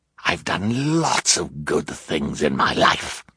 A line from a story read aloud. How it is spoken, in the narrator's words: he snarled